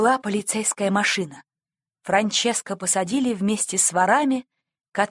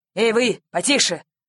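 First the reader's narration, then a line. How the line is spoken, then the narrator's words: Policeman shouting. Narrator (Russian): крикнул полицейский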